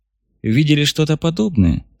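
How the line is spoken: Calm question. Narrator (Russian): спокойно поинтересовался Соломатин

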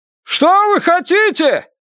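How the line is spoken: Shout. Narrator (Russian): крикнул Феннер

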